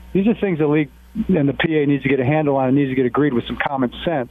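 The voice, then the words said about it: Frustrated tone of voice. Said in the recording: “you can tell by my voice ... I'm a little frustrated”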